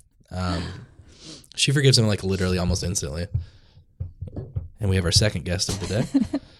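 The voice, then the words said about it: Low, gravelly voice from a cold. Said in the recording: “I sound weird. I'm coming off of a cold, so ... my voice is a little, little low and gravelly.”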